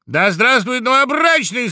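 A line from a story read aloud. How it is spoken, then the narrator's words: Loud shout. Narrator (Russian): закричал дятел громко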